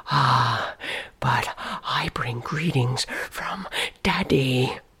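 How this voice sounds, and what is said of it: Whispered character line. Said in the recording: “a whisper floated up and around her”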